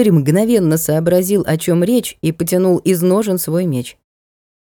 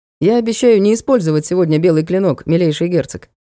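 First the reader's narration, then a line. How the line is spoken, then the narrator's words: Mocking knight. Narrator (Russian): насмешливо сказал светлый рыцарь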